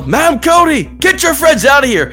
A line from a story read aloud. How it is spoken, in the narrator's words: you just hear him yell